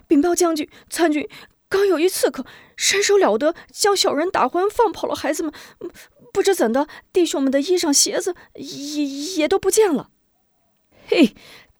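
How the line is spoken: Hurried soldier's report. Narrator (Chinese): 看守关押孩子的兵丁急忙上前禀报

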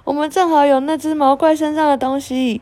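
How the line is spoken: Loud shout. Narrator (Chinese): 他大喊一声

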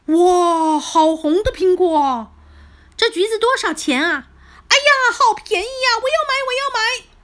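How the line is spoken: Many voices clamoring. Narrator (Chinese): 他们七嘴八舌的叫

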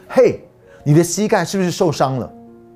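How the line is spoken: Loud. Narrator (Chinese): 男士 大声对他们说

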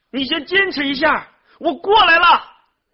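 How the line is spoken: Shouting over storm. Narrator (Chinese): 少平在暴风雨中大声的向对岸呼喊

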